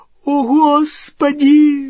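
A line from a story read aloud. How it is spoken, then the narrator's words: Shrill squeal. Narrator (Russian): взвизгнула Гермиона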